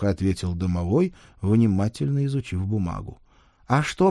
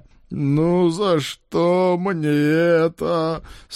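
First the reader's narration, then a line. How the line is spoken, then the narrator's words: Whining. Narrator (Russian): скулил Олег Владимирович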